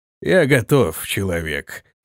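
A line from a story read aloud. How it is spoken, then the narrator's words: Growl then giggle. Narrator (Russian): рыкнул он и хихикнул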